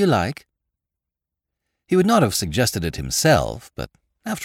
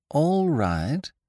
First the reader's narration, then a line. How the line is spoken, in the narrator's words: said Lord Drever, slowly